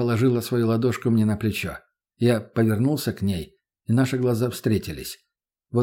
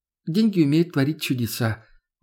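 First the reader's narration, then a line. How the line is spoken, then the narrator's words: Sad smirk. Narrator (Russian): грустно усмехнулась она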